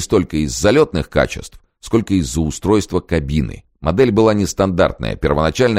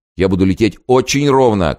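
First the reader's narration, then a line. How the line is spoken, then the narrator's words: Shout. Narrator (Russian): крикнул Зепп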